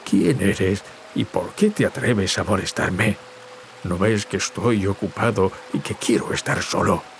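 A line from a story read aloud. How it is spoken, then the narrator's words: Tearful god growling. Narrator (Spanish): Gruñó el dios mientras se secaba las lágrimas del rostro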